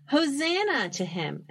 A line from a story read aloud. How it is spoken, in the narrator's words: The people ... shouted